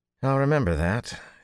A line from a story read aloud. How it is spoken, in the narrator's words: he said dryly